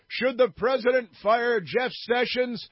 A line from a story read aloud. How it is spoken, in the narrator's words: guy yells